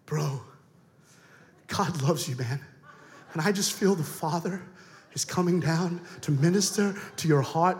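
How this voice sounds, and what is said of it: Put-on American preacher accent. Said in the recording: “The best accent to have if you're a preacher is American.”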